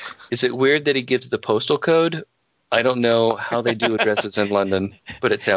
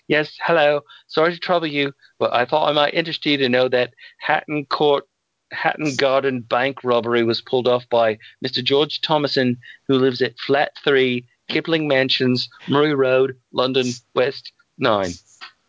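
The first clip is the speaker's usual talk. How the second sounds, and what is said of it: Fake British accent. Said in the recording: “using a fake British accent”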